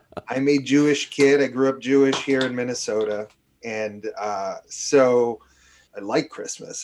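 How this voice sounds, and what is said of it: New York accent. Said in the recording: “my kind of fake New York accent”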